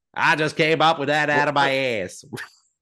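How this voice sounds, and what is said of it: Imitates another person's voice. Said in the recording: “Is that your Stephen King impression? ... Well, I had to do like my main accent.”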